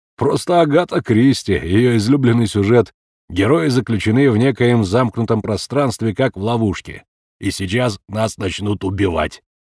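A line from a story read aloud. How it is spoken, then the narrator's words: Chuckling. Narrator (Russian): хохотнул бородач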